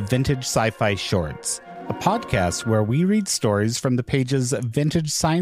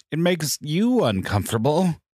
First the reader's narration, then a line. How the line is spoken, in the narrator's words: he moaned